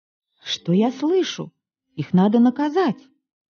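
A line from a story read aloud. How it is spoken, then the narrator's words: Exclamation. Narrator (Russian): Мама воскликнула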